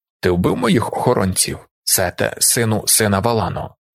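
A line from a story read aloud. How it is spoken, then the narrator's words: Quiet royal inquiry. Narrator (Ukrainian): тихо поцікавився король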